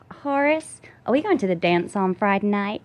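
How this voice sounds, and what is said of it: Put-on Southern US Texan accent. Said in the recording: “how's your Southern accent? ... That's kind of Texan. ... You just nailed”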